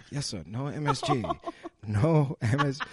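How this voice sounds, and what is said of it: Put-on Chinese waiter accent. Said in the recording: “impersonating a Chinese waiter”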